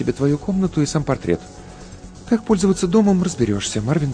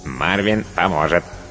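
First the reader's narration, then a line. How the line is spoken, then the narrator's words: Cartoonish robot voice. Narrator (Russian): подтвердил робот мультяшным голосом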